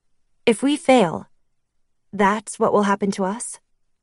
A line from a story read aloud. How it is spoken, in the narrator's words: I asked, unable to keep my voice from trembling